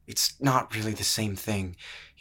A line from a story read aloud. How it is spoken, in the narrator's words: he muttered